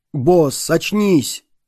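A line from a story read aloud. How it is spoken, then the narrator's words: Loud, eerie urgency. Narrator (Russian): С неясным и жутким побуждением Метлаэн громко сказал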